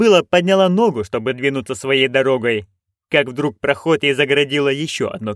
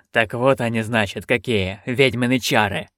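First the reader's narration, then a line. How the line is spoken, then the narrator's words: Snorted. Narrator (Russian): фыркнул стражник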